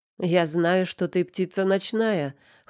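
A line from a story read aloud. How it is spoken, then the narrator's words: Chuckle. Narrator (Russian): хмыкнул он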